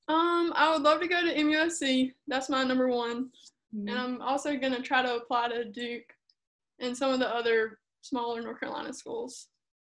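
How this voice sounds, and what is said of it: North Carolina accent. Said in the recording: “I can tell in that accent. I'm from North Carolina too, so I picked up on that.”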